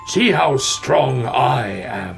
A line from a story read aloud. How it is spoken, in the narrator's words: howled the North Wind